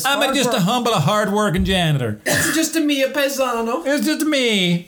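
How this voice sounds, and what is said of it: Put-on accent. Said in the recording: “He's got an accent.”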